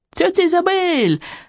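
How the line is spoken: Joyful shriek. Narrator (Russian): радостно завопила Софи

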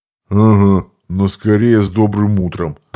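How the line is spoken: Grumbling, short man. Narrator (Russian): проворчал коротышка

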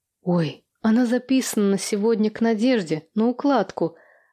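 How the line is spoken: Joyful. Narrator (Russian): радостно сообщила Алина

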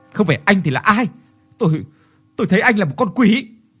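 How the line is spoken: Screaming. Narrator (Vietnamese): Trang gào thét

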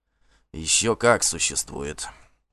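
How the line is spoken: Through clenched teeth. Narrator (Russian): сквозь зубы бросил Асфальт

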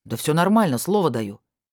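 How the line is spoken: Irritated. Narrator (Russian): раздраженно добавил Валера

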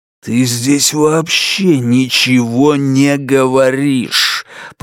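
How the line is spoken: Growled. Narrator (Russian): прорычал мистер Гонт

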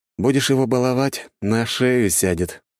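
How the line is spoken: Warning chuckle. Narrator (Russian): предупредительно хмыкнул я

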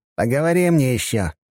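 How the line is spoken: Snort. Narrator (Russian): фыркнул Лой

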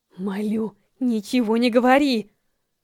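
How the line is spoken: Trembling bitter whisper. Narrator (Russian): Дрожащим голосом прошептала, давя горечь

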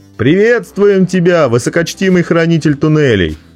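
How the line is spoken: Shouting. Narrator (Russian): прокричал он

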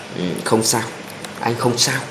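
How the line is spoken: Soft whisper. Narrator (Vietnamese): Hầu Quý Bình khẽ thì thầm

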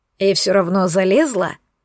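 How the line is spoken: Grumbling. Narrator (Russian): продолжил ворчать он

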